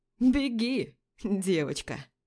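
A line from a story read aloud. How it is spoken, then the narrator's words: Laughing. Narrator (Russian): Смеясь, говорит кто-то из парней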